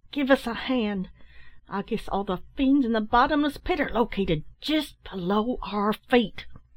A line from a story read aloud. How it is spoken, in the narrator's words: cried the one who spoke first